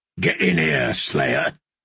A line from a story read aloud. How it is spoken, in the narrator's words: growled the man